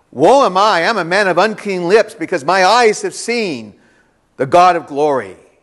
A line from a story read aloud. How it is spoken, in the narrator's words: this prophet who had spoken with God, when he actually saw God, was so shocked, he fell on his face and cried out